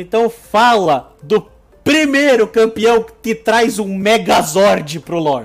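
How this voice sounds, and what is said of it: Usual voice. Nothing is said of it.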